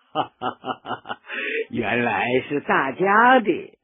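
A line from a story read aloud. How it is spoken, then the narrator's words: Laughing. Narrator (Chinese): 毛泽东笑了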